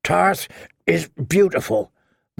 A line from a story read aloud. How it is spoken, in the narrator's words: the wench grunted between strokes